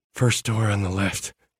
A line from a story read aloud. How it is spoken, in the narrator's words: rasped into my ear